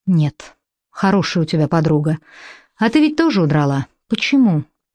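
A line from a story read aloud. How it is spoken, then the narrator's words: Soft laugh. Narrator (Russian): Лара рассмеялась тихонько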